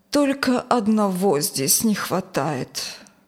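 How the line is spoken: Sad. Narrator (Russian): печально сказала Юлия

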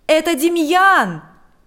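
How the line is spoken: Shouted. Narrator (Russian): закричал он

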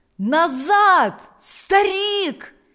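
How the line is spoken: Villagers shouting from behind. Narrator (Russian): закричали селяне позади него

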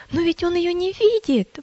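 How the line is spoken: Exclamation. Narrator (Russian): воскликнула милость

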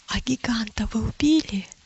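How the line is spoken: Whispered question. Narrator (Russian): шепотом спросила милость у Матфея

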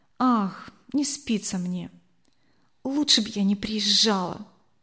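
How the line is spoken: Whispered reply. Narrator (Russian): также шепотом ответила она

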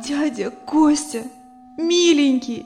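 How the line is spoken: Sobbing girl. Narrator (Russian): рыдающая девушка

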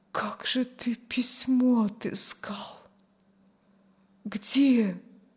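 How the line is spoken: Barely audible. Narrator (Russian): Чуть слышно вымолвила Аня

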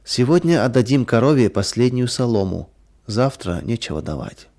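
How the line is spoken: Sad. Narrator (Russian): Мария печально сказала

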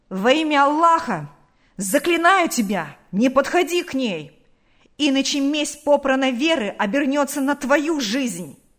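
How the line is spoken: Angry shout. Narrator (Russian): крикнул озлобленно

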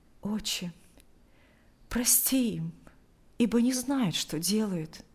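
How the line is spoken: Quiet. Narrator (Russian): тихо произнес Алексей

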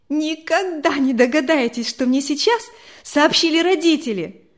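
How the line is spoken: Joyful. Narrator (Russian): Радостно обратилась она

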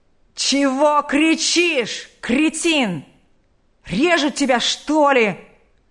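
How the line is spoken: Furious shout. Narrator (Russian): охранника, который неистовым голосом заорал

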